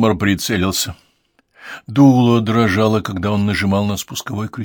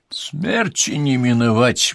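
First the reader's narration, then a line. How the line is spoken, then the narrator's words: Grim foreboding. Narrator (Russian): мрачно предрекла мадам Жожеску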